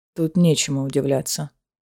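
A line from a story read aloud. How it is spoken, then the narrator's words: Muttered. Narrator (Russian): пробормотал Рован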